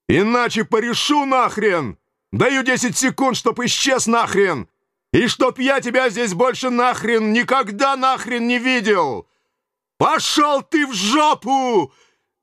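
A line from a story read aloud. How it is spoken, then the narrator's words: Yelling. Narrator (Russian): Заорал я в ответ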